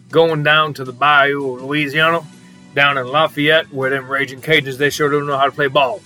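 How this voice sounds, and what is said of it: Put-on Cajun accent. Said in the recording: “that was my attempt at a Cajun accent, a little Coach O”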